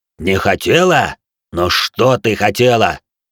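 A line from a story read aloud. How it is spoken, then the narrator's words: Muffled furious growl. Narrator (Russian): Глухо прорычал Хару, до безумия взбешенный позорным заговором внутри его клана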